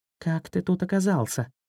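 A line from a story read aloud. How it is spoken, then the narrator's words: Whispered question. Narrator (Russian): Златобров шепотом спросил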